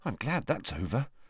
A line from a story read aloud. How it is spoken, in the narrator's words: muttered Neville